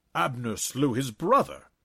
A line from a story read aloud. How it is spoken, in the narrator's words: Naharai exclaimed